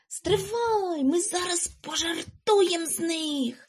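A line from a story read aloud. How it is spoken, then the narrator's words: Whispered. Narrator (Ukrainian): Прошепотів він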